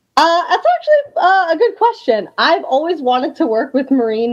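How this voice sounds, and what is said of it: Sick, slightly odd-sounding voice. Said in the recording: “you are sick ... I sound a little weird ... is not a man”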